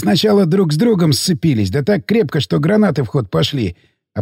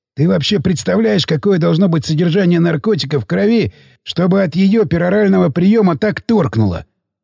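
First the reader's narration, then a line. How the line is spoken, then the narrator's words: Curious question. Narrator (Russian): Поинтересовался Сиплый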